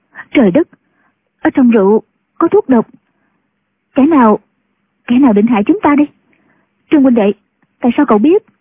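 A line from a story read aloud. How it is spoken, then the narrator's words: Terrified, trembling woman. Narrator (Vietnamese): Ngũ cô sợ hãi, run cả người, nói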